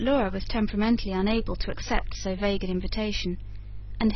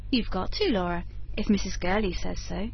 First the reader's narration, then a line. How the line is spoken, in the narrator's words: expostulated the kindly governess